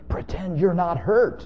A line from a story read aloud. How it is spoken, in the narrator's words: they pleaded in loud whispers